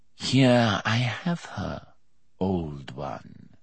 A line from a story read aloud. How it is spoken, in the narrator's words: said the rider, his nasal accented voice softly triumphant